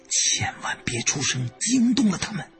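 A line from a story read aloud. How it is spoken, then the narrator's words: Whisper. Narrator (Chinese): 洛宁悄声说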